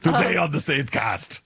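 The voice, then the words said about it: Imitates another person's voice. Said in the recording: “This is exactly what he sounded like... Spot on impersonation.”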